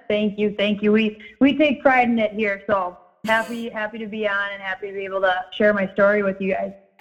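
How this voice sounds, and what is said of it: Minnesota accent. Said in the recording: “Love the Minnesota accent.”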